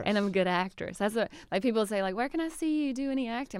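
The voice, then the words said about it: Southern American accent. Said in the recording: “That southern accent ... he heard my accent”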